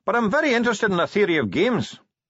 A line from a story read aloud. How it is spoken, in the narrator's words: said the dwarf cheerfully